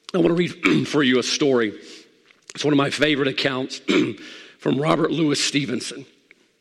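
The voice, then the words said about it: Strained, nearly lost voice. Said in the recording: “I'm about to lose my voice.”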